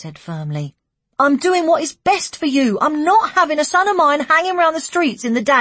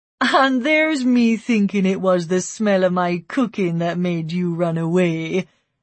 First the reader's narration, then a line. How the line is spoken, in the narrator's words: Libby said, laughing